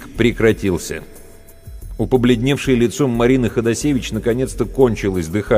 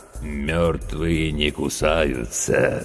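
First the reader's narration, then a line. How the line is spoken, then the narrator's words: Creaky, grinning voice. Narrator (Russian): скрипучим голосом проговорил ухмыляющийся Серега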